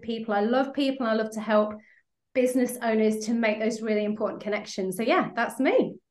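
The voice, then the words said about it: UK or Australian English accent. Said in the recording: “I could literally listen to ... accent all day long ... hearing somebody from the UK or Australia or whatever”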